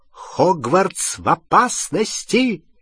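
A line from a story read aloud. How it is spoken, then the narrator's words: Exclaiming. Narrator (Russian): воскликнула профессор МакГонагал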